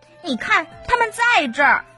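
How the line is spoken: Shouted. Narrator (Chinese): 球球狗喊道

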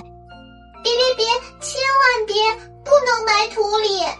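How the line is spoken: Faint muffled sobbing. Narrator (Chinese): 有隐隐约约的啜泣声从盒子里传来

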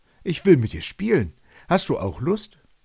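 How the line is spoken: Calling upward. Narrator (German): rief er zu ihr hoch

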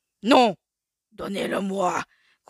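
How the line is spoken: Growled. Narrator (French): gronda alors Shere Khan

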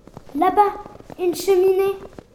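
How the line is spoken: Exclaimed. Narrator (French): s'écrie-t-elle

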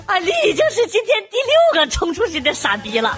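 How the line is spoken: Wild laughter. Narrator (Chinese): 网管狂笑着说

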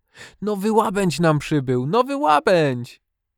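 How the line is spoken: Child calling out. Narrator (Polish): jeden chłopczyk zawołał

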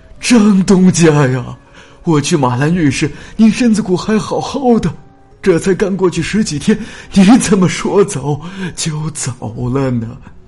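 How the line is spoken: Wailing loudly while speaking. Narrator (Chinese): 他边说边……放声大哭起来

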